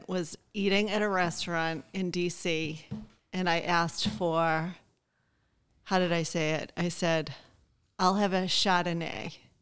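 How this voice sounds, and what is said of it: Boston accent. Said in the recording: “what's the best word to say in a Boston accent ... My accent's not fake ... One of my favorite stories of having a Boston accent”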